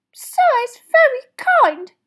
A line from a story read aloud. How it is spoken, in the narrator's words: he squeaked, his eyes brimming with tears again